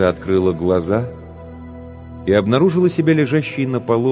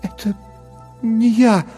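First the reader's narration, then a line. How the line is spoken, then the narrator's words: Stammering whisper. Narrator (Russian): запинаясь, прошептала Лекса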